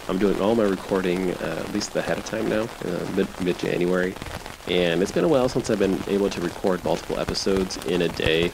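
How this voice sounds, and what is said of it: Slightly strained voice. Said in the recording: “my voice sounds a little bit strained”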